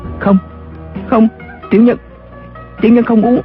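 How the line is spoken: Terrified stammering. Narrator (Vietnamese): Tên Tú Bảo sợ đến mặt cắt không ra máu, y ấp úng

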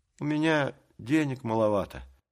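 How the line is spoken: Timid, embarrassed. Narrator (Russian): робко сказал сконфуженный шпик

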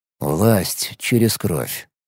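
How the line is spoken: Quiet. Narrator (Russian): тихо вымолвил я

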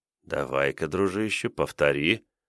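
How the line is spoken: Whispered aloud. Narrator (Russian): прошептал я вслух

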